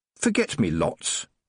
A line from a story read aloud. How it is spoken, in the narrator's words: said Tiffany, more sharply than she'd intended